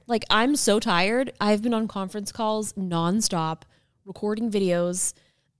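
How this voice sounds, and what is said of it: Tired, hoarse, fading voice. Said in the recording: “I'm losing my voice.”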